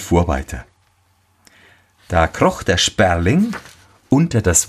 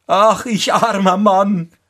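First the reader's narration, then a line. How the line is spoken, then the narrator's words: Cried out. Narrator (German): rief er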